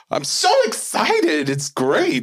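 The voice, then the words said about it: Very high-pitched, excited voice. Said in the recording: “It's just a very high-pitched, like, very excited voice.”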